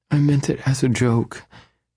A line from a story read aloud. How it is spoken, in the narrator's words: she whimpers